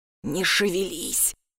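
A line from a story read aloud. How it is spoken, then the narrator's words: Careful whisper. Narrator (Russian): сказал я шепотом, чтобы кот не дернулся, испугавшись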